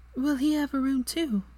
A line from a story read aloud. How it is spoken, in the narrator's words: she asked softly